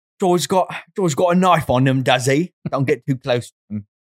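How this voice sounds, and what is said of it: Convincing put-on accent. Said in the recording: “Accent is great, dude. It's so good. ... It totally set the atmosphere.”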